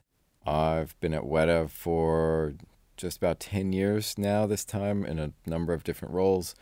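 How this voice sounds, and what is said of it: Non-New Zealand accent. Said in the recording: “I am now a Kiwi, despite my accent.”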